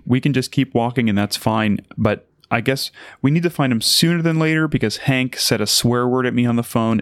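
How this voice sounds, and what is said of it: Stressed, tense tone of voice. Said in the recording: “as you can probably tell by my tone of voice, I'm also very stressed out”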